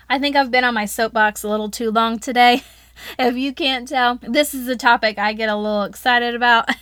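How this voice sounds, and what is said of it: Southern American accent. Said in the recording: “My southern accent probably came out real good”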